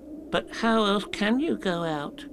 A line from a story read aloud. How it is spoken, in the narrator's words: asked Piglet anxiously